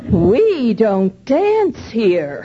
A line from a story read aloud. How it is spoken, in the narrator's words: she said in a shocked voice